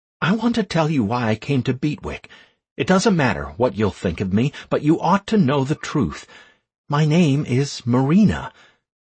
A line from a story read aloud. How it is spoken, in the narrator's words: quickly blurted out